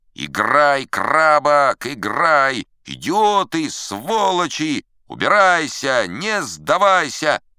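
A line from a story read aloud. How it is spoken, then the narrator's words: Roaring crowd. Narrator (Russian): Публика взревела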